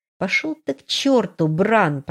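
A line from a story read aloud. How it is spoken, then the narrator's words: Angry hiss. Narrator (Russian): прошипела я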